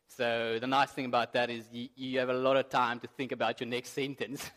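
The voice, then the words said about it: South African accent. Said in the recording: “sometimes my accent's difficult to understand ... all the South Africans in the room, you need to be my interpreter”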